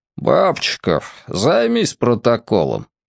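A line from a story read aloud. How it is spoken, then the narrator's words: Lazy. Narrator (Russian): лениво сказал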